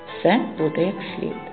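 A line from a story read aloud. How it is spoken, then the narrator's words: Calm reply. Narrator (Ukrainian): спокійно відказав Лаврентій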